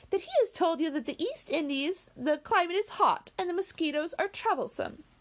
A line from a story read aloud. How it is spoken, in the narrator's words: cried Marianne contemptuously